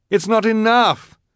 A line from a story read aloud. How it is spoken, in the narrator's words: Klaus cried